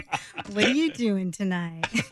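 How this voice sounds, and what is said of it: Put-on sexy seductive voice. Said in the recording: “my sexy voice, not my news voice ... show us your sexy voice right now”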